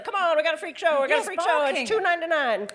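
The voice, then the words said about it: Carnival barker calling to crowd. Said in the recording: “I like that impression.”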